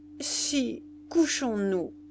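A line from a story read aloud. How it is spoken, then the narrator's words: Stammering. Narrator (French): balbutia-t-il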